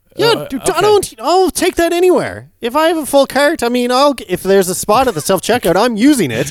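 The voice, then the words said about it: Noticeable accent picked up elsewhere. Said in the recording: “You haven't dropped your accent yet since coming back.”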